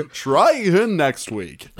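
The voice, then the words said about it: Game show host voice. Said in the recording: “That's my game show voice.”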